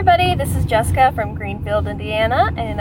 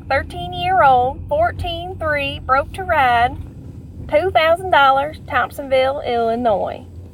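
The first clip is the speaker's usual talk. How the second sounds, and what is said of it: Put-on southern accent. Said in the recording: “I'm going to try to read a really bad ad in a southern accent”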